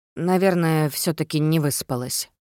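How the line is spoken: Uncertain conclusion. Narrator (Russian): неуверенно заключила я

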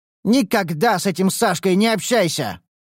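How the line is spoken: Shouting at child. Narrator (Russian): Зоя закричала своему сопливому Сереже

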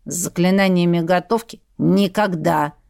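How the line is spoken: Grumbling mutter. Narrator (Russian): буркнул тот

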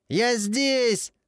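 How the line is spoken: Yelling over siren. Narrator (Russian): заорал во все горло, пытаясь перекричать вой сирены

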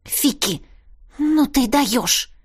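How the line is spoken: Hissing girl. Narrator (Russian): зашипела девушка

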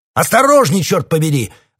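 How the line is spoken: Barking. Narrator (Russian): рявкнул Лочерт

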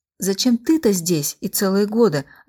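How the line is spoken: Childlike guffaw. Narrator (Russian): отвечала и захохотала, как ребенок

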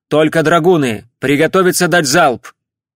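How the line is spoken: Shouted command. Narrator (Russian): Палидар крикнул

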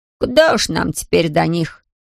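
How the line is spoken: Scoffing snort. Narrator (Russian): хмыкнул Ларри

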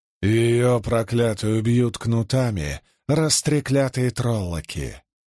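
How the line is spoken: Hoarse reply. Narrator (Russian): хрипло ответила Дозин

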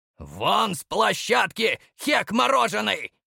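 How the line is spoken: Barked, unusually vicious. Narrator (Russian): Рявкнул на него Клочков, и тон его был чужим, непривычно злобным

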